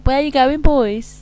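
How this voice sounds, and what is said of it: Strong Black Country accent. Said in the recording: “my black country twang voice ... that's how I sometimes sound”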